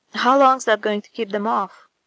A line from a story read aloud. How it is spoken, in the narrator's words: Sam asks urgently